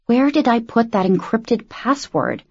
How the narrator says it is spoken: she mumbled

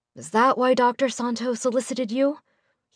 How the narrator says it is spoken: he murmured, as though talking to himself

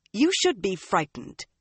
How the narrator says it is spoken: Egwene snapped, color rising in her cheeks

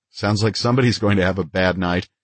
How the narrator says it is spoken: I smiled and said it was the Secret Service, then laughed as I added

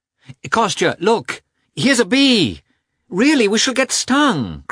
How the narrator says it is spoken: cried Dolly

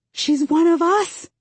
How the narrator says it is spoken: I shout

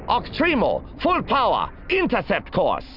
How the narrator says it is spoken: She snapped

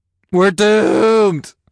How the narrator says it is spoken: I moaned again

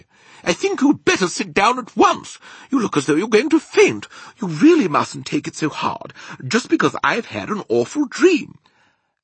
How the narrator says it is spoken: the famous voice was saying rather sharply

